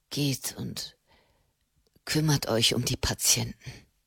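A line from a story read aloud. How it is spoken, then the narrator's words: Murmured. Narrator (German): murmelte Matteo Cenni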